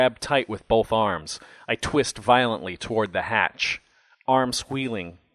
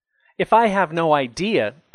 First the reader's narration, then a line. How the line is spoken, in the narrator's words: I shout